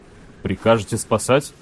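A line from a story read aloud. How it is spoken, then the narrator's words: Quiet astonished question. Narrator (Russian): тихо спросил изумленный Санин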